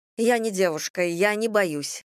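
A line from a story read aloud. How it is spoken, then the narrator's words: Hurried. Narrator (Russian): торопливо заговорила я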